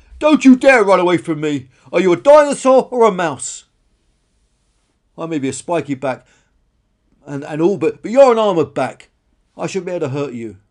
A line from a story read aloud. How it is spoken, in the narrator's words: Karen roared